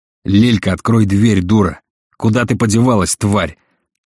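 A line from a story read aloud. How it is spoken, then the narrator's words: Loud unrestrained yelling. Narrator (Russian): орал Марат на весь подъезд, позабыв о правилах приличия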